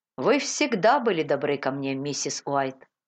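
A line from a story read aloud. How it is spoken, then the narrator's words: Plain. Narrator (Russian): сказал Кристи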